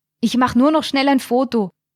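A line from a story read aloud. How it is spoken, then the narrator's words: Called out. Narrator (German): rief ihr zu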